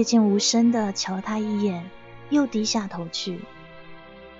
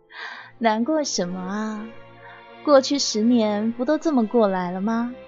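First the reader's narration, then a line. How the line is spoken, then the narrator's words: Smiling. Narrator (Chinese): 笑着说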